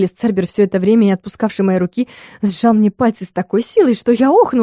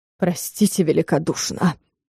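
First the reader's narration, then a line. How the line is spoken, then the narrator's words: Hoarse rasp. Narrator (Russian): прохрипел ректор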